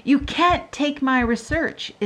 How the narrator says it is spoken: Isabel cried

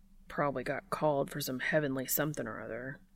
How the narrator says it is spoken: Dean mutters to himself

